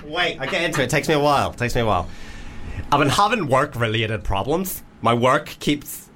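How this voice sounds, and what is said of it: Put-on Northern Irish accent. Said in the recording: “Well, Northern Irish. ... Straight Northern Irish, not gay.”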